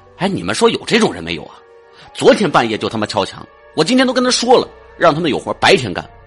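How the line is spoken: Furious. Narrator (Chinese): 我怒冲冲的说

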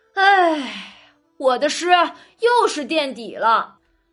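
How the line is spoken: Laughing sigh. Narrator (Chinese): 宝玉笑着叹着

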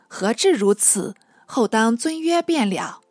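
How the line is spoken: Laughing, interrupting. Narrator (Chinese): 朱少年不待说完，便都笑说道

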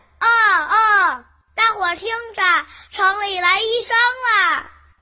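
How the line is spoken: Crow shouting noisily. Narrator (Chinese): 这只多嘴的乌鸦就在大森林里大叫大嚷起来

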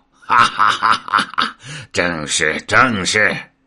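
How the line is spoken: Old demon's hearty laugh. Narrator (Chinese): 老魔大笑道

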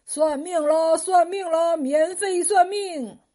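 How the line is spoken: Loud hawking cry. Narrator (Chinese): 一个长须瞎子朝过往人群大声吆喝

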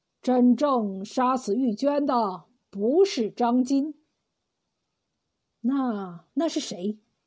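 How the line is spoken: Sighing. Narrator (Chinese): 刘龙叹了口气说

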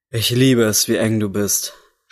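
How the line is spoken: Moaning into ear. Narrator (German): stöhnte er in ihr Ohr

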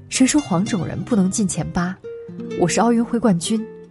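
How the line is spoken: Panting, choked with tears. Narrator (Chinese): 他大口喘气，含着激动的眼泪，哽咽着对镜头说

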